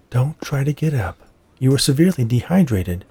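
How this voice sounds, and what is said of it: Soothing, gentle voice. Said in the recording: “she said in a soothing voice”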